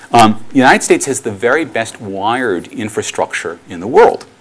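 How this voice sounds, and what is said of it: Strong American accent. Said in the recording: “the United States, which is where I grew up, as you can probably tell from my outrageous accent”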